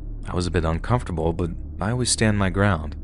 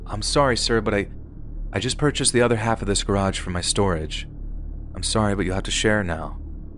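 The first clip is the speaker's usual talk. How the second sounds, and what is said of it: Very polite tone. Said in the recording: “In a very polite voice,”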